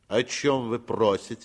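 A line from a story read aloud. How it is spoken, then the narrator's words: Stern nasal voice. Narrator (Russian): спросил он строгим голосом и несколько в нос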